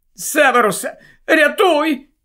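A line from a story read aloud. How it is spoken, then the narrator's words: Cracked, frightened woman's voice. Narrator (Ukrainian): жінка промовила надтріснутим, переляканим голосом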